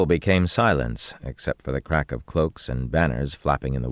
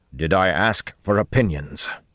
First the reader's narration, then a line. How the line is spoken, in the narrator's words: Rand snapped harshly